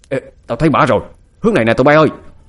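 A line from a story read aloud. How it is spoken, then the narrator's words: Shouting. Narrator (Vietnamese): Một tên trong số đó hét lên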